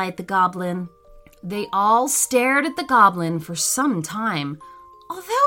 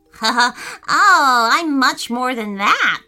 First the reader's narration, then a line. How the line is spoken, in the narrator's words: giggled the goblin out loud